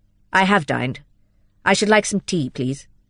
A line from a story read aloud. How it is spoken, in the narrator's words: said Lydgate curtly, still scowling